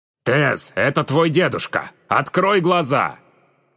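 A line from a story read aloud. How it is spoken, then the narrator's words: Shouted. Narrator (Russian): крикнул Верион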